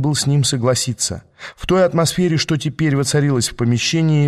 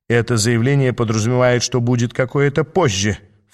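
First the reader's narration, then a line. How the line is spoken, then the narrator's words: Snorting. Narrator (Russian): фыркнул Фрумпель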